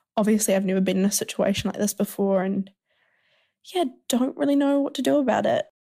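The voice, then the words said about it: Speaks with a noticeable accent. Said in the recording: “I really like your accent.”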